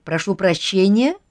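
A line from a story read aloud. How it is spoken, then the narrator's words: Plain. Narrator (Russian): сказал артиллерист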